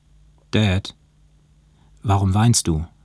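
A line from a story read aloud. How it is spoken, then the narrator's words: Plain. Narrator (German): fragte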